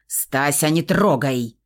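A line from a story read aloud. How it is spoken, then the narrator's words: Sharp bark. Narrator (Russian): рявкнул Феникс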